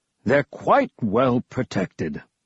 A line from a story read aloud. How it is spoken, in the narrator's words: Archetis said in his deep voice